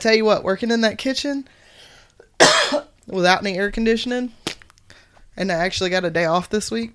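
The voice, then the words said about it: Slightly off, sick-sounding voice. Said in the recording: “that's because I was sick. That's why my voice is a little hinky today.”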